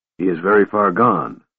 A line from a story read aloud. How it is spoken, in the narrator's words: the mage said coldly